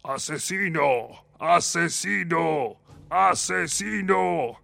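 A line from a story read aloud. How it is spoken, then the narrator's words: Blaring loudspeakers. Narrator (Spanish): bramaron los altavoces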